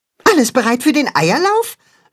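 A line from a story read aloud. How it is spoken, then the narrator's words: Excited question. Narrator (German): fragt Max aufgeregt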